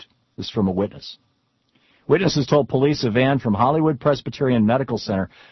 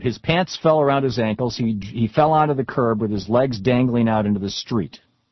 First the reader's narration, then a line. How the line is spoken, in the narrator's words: Long said